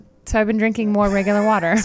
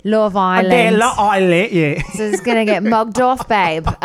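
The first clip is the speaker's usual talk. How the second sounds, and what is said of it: Put-on British accent. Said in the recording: “my accents.”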